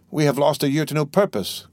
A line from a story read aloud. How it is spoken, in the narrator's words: cried Dantès